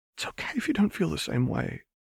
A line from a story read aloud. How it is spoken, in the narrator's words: Hermione said, almost in a whisper